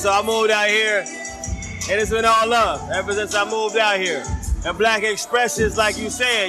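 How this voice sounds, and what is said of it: Southern US country accent. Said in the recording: “I'm from Charlotte, North Carolina. You can't tell with the accent. ... I'm country.”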